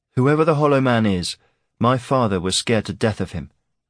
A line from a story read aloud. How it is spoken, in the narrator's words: Aaron said